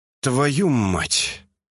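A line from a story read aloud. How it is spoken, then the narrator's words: Loud exhale. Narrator (Russian): шумно выдохнул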